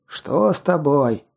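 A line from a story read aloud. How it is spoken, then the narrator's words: Hoarse rasp. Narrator (Russian): прохрипело одно из них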